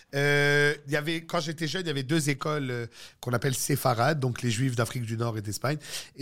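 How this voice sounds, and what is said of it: Moroccan Jewish Montreal French accent. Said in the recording (French): “j'ai un accent de juif marocain de Ville-Saint-Laurent”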